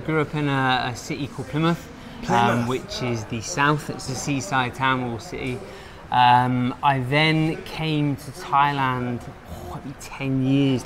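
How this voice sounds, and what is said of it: British accent. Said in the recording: “I'm from the UK, you can probably guess by the accent.”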